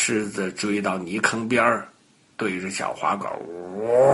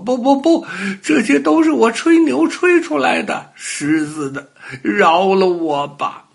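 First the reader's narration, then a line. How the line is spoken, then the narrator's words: Crying. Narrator (Chinese): 小花狗一边哭一边说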